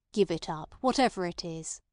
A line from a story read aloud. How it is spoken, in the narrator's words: he said in an admonishing tone, but not so kindly as if he were condescending to give good advice to a cracksman of repute